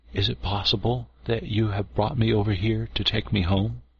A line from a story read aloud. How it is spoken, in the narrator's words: whispered at last